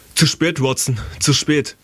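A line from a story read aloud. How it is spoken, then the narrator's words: Called out. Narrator (German): rief Holmes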